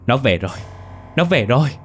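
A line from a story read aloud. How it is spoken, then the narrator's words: Woman's frantic scream. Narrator (Vietnamese): tiếng hét thất thanh của một người phụ nữ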